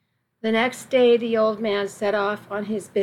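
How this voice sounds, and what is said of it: Usual voice. Nothing is said of it.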